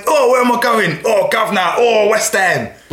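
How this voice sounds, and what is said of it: Mediocre generic Cockney accent. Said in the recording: “it is just a generic Cockney ... It wasn't even that good a Cockney.”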